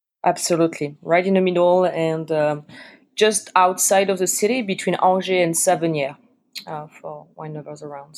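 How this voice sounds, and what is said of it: Strong French accent. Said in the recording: “I grew up in France, in fact, as you can probably hear from my very strong accent.”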